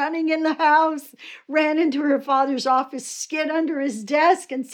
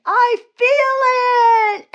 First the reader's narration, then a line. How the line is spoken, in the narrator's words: She screamed